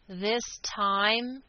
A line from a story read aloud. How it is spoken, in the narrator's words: spoke aloud and through his teeth